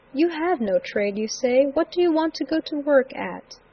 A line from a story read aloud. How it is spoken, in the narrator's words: Robinson, who kindly said